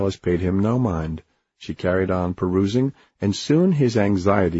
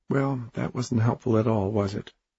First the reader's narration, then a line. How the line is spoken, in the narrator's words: Alice said with a sigh